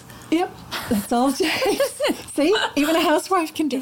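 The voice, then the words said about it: American accent. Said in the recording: “as you can hear from my accent, I was born in the States”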